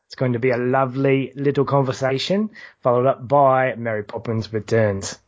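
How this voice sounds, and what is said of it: Deliberately poor put-on English accent. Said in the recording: “we get out our British accents ... I know it's a terrible English accent, but I had to do my best”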